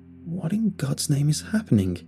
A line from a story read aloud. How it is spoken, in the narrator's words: I muttered to myself as I frantically